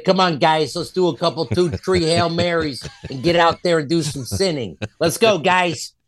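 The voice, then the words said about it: Put-on Chicago accent. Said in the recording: “Chicago accent ... It's pretty good.”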